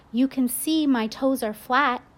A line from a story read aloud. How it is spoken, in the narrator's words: I yelled